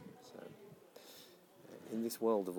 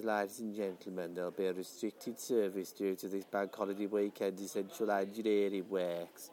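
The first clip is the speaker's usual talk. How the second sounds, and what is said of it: Stuffy put-on Birmingham accent. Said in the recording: “a stuffy Birmingham accent”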